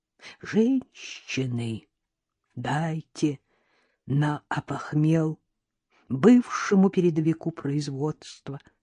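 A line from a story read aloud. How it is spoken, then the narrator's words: Toothless mumbling. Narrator (Russian): прошамкал бомж, приоткрыв рот, из которого торчал единственный гнилой зуб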